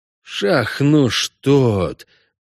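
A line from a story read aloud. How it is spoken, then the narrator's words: Two voices exhaling together. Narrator (Russian): Почти одновременно выдохнули орк и кобальт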